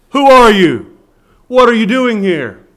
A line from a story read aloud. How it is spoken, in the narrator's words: The guard had shouted down to this stranger